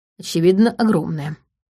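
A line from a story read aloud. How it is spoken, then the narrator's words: Snorting. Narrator (Russian): хмыкнул Матвей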